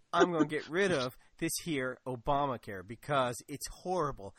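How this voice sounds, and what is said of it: Put-on Kentucky accent. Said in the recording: “that's my Kentucky accent”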